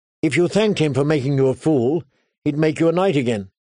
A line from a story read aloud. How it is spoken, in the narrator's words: Sansa said sharply